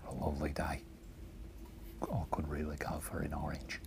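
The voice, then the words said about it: Quiet put-on Australian accent. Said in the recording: “I'll do my Australian accent, but I'll do it real quiet ... Orange is hard to do with an accent.”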